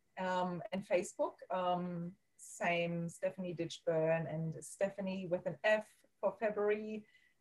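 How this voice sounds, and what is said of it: German accent. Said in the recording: “As you can hear, I'm having an accent, so I'm born in Germany.”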